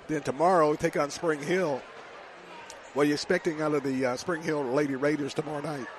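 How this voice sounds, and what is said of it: Hoarse voice, losing his voice. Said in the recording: “I'm losing my voice. Got a little upper respiratory thing going on in my throat.”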